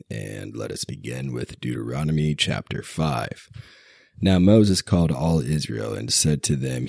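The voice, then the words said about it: Raspy, sick-sounding voice. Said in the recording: “I'm still a little bit sick and under the weather, so please forgive my raspy voice.”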